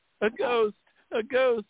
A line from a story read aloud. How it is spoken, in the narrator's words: screamed